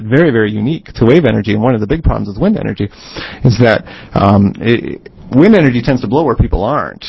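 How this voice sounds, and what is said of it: North Dakota accent. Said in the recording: “You can tell by the accent.”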